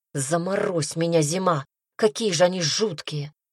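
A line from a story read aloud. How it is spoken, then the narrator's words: Growled in ear. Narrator (Russian): Он зарычал ей в ухо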